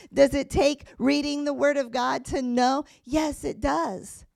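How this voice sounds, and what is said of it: Strained, fading voice. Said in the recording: “my voice is giving out a little bit”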